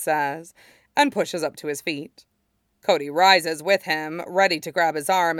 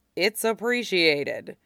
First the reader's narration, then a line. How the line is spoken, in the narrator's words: Cody says dryly